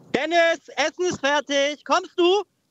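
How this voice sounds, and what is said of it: Imitates mother calling, rising pitch. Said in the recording (German): “deine Mutter ruft nach unten ... Mit der Stimme auch so hochgehen, so kommst du?”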